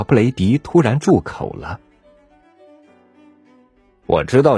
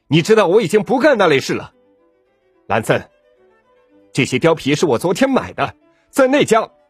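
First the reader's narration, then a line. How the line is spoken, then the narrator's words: Angry shout. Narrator (Chinese): 小布雷迪愤怒的嚷道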